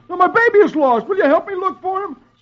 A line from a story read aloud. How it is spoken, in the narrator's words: Archie answers excitedly